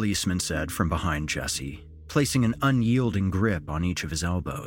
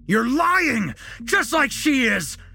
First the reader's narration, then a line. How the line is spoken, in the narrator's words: Jesse screamed, unhinged